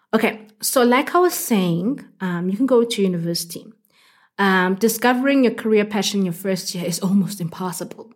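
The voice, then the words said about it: Congested voice with a cold. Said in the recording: “I've got a bit of a cold.”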